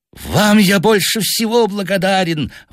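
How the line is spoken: Hateful exclamation. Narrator (Russian): воскликнул он с ненавистью

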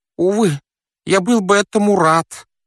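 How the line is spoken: Wheezed. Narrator (Russian): просипел он

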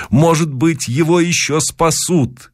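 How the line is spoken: Shouting. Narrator (Russian): кричал я

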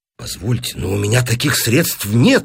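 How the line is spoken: Exclaiming. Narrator (Russian): воскликнул Бус

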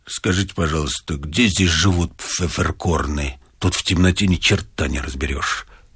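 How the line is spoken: Deep bass voice. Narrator (Russian): пробасили

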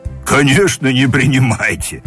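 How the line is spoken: Loud laughter. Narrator (Russian): Снова захохотал Маша

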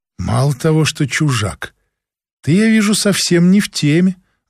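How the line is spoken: Sighing. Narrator (Russian): вздохнула Ханна

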